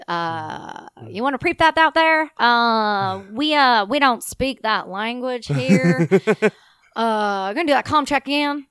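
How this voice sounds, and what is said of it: Put-on Texan drawl. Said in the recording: “I love your Texan drawl. That was pretty good.”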